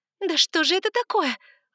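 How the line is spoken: Desperate shout. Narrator (Russian): в отчаянии закричала я

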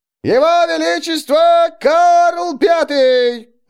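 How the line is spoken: Herald's ringing shout. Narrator (Russian): звонко прокричал глашатай

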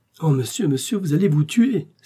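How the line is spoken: Exclaiming. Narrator (French): s'écria Planchet

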